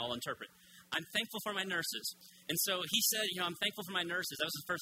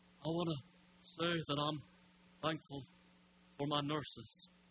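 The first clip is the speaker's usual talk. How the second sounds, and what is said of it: Imitates another person's voice. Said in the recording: “That's all my impression I'll do this morning”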